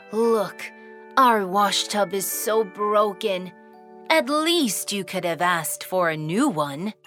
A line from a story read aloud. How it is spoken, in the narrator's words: The old woman sighed and said